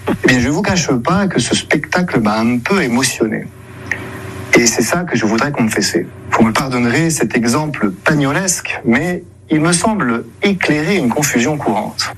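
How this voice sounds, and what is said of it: Weak, odd imitation of Marseille accent. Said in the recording (French): “essaie d'imiter l'accent marseillais, mais sans se lâcher totalement. Ça donne l'accent, avouons-le, très bizarre, hein, une imitation pas trop réussie”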